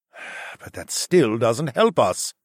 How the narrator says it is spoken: Zoklan sighed

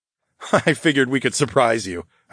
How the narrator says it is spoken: I chuckled

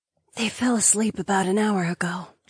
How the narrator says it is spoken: Laika whispered

